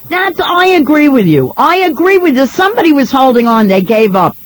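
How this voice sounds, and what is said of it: New York accent. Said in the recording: “I love hearing your voice because you don't get to hear too many people from New York on the radio ... people don't like this accent”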